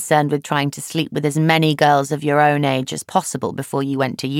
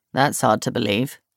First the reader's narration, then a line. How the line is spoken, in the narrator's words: Jono mumbles